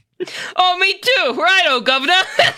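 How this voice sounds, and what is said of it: Bad put-on British accent. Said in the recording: “I hope this gives AB and all of our other UK listeners a fucking aneurysm... This is why we don't do accents... That was terrible.”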